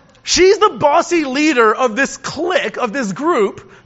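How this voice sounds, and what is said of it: Usual voice. Nothing is said of it.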